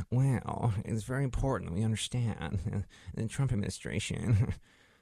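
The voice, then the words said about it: Anxious, fretful imitated voice. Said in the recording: “sounds uh, sort of like uh, he, he's concerned that uh, he, he may have left the gas on in his apartment and he has to run back and check ... my impersonation is pretty close”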